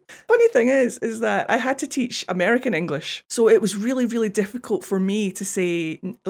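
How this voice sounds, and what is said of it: Scottish accent. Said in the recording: “in Scotland, we say down it ... the ow sound is a sound that I can't get away from in my accent no matter how much I try ... the perfect like copy of my accent”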